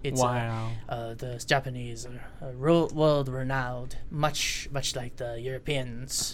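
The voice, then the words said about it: Put-on Japanese accent. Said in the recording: “your Japanese accent ... this is my Japanese accent”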